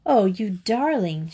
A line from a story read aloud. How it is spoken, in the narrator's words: cried